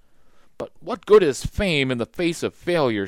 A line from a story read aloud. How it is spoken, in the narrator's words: shouted Leonardo